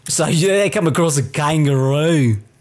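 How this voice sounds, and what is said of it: Attempted Australian accent. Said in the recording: “But it's Australian ... I don't know how to do the accent. It's so hard. ... It's hard to sustain. ... It's so difficult to do that fucking accent.”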